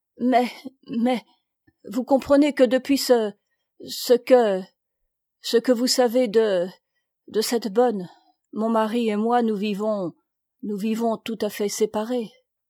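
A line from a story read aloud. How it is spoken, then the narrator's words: Stammering, confused. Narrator (French): bégayant de confusion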